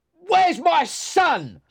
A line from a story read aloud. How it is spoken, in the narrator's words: shouted Hindley